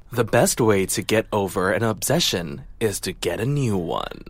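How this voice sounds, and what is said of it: Dramatic TV narrator voiceover voice. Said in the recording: “do my best VO voice”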